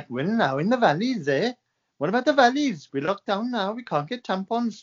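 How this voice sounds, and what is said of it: Put-on Welsh accent. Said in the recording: “I was gonna do a Welsh accent”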